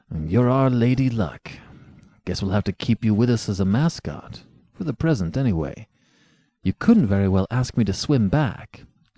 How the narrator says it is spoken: she said coolly

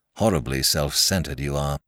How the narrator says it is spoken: grumbled Mr

